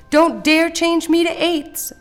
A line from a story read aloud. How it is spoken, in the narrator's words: screamed Nate's four poor parts